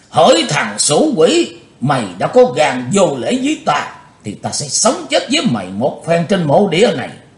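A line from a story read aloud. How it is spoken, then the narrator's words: Old man, hateful loud shout. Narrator (Vietnamese): lão ác đạo đã trấn tĩnh lại tinh thần, căm thù hét lớn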